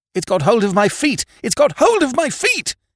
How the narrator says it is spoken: he screamed

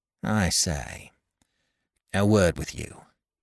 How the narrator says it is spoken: murmured Tackleton

